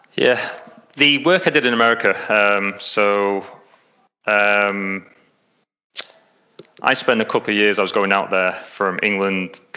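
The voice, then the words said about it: English accent. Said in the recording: “as you can tell, I'm English, I'm not Australian, so I've got an English accent.”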